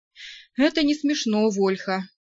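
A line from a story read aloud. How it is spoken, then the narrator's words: Sighing. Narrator (Russian): вздохнул Лен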